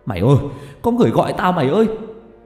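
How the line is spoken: Shouting. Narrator (Vietnamese): Có thằng còn hét lên

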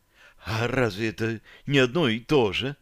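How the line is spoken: Husky alluring question. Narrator (Russian): с волнующей хрипотцой в голосе поинтересовалась девушка

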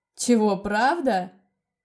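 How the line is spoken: Astonished, then loud laughter. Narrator (Russian): изумленно переспросил он и громко расхохотался

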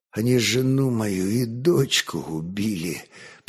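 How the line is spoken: Whisper. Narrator (Russian): прошептал Лемеш

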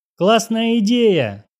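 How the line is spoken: Joyful yell. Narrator (Russian): обрадованно заорал Стас

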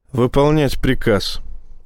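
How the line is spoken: Sigh. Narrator (Russian): вздохнул Рашин

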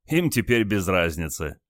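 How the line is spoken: Chuckling. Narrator (Russian): хохотнул командир

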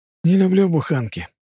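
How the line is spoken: Sighing. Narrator (Russian): вздохнул Тычок

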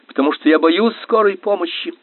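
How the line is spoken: Yelling. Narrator (Russian): заорал Фрэнсис

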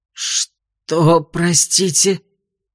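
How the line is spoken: Hoarse. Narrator (Russian): прохрипел он

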